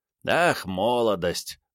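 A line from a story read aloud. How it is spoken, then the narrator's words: Pleased smirking drawl. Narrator (Russian): протянул Рю с довольной ухмылкой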